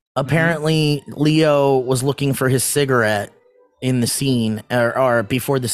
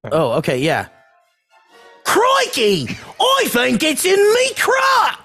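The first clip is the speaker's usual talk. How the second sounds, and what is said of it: Put-on Australian accent. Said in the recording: “Can you say that in an Australian accent?”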